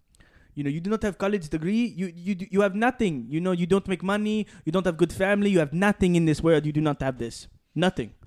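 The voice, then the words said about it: Imitated father's accent. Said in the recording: “I'll do my dad's accent”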